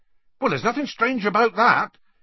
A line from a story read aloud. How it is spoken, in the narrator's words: Hagrid added hastily